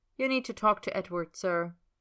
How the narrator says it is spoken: she says flatly

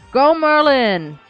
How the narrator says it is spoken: Elion shouted as if they were at a footy match

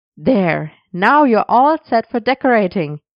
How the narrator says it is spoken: he said cheerfully

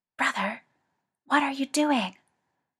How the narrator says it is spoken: Al under cover of the noise hissed at Ed

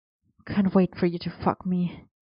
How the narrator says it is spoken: he murmured against Arthur's jaw

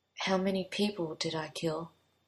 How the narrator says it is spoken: Merlin asked him in a low voice

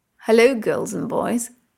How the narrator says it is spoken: Freya says teasingly

